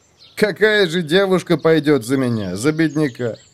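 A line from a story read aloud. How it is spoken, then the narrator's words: Sighing young man. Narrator (Russian): вздохнул парень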